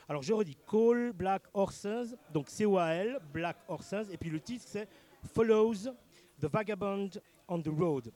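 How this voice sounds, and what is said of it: Urban Geneva accent. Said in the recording (French): “mon pauvre accent de genevois urbain”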